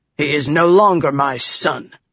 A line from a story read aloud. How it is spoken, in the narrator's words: father growled